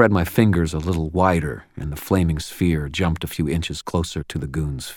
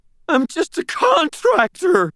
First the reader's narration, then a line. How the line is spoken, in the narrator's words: Bart all but screamed, writhing to get his face farther away from the fire